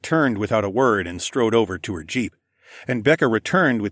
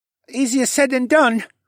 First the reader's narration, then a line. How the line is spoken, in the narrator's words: young man piped up